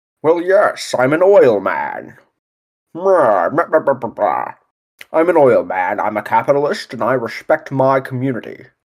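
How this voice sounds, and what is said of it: Daniel Day-Lewis's stereotypical oil man accent. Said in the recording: “the performance of Daniel Day-Lewis ... the stereotypical oil man accent ... I feel like it's a poor American accent because he's English ... if I wanted to sound like a rich douche, that is the voice”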